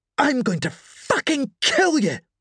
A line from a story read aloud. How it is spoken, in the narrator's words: Joni spat